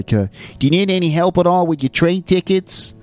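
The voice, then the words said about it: Imitated New York American accent. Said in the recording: “Some classic New York accents. The train staff speaking with that sort of New Jersey accent ... It's some sort of American accent. It's not necessarily the one that she did. But hey, there's that kind of New York thing.”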